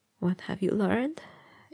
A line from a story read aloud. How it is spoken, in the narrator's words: he asked hoarsely